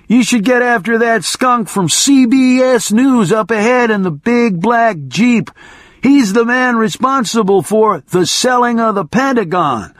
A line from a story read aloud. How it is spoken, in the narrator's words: I shouted